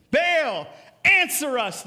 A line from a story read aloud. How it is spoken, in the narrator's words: they shouted